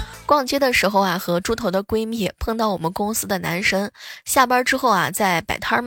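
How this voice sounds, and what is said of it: Usual voice. Nothing is said of it.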